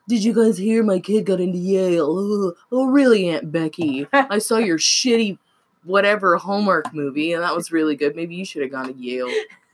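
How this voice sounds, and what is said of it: Imitates another person's voice. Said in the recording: “my Aunt Becky impression”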